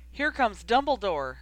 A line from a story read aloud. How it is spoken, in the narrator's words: someone had shouted